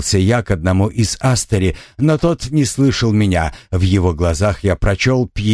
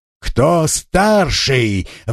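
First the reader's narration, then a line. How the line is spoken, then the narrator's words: Roaring. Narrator (Russian): взревел я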